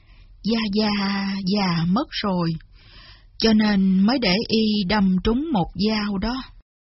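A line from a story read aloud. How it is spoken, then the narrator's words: Sighing old man. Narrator (Vietnamese): Kế lão thở dài nói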